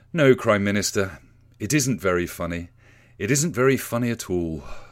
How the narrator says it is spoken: sighs Sir Humphrey

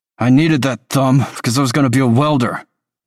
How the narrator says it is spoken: Tolliver snaps

